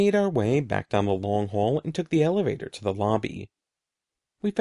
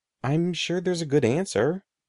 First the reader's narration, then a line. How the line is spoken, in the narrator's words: I said